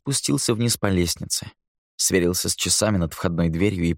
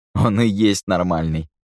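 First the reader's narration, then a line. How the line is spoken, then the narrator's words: Chuckling. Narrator (Russian): хохотнул ему в спину Хэмик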